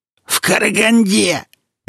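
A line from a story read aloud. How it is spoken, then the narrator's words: Cheerful bark, suddenly alert. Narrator (Russian): весело гаркнул Игнат, как-то разом выйдя из странного транса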